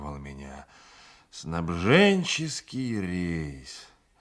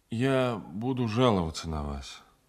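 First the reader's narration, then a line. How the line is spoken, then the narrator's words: Tired. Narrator (Russian): устало проговорил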